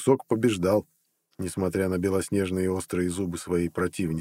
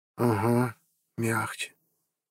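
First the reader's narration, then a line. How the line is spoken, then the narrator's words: Strained, while chewing. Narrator (Russian): выдавила из себя Амела, героически сражаясь с жестким, как подошва, куском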